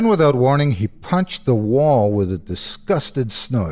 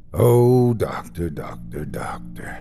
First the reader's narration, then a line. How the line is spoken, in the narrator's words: Joe said softly